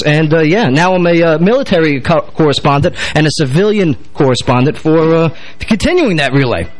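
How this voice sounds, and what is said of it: New York accent, blunt military speech. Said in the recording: “Please bear with the dialect. I'm a New York-minded guy with a military mouth.”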